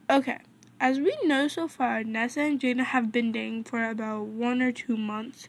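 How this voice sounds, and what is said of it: Slightly off, sick-sounding voice. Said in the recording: “I sound a little weird, but I'm a little sick.”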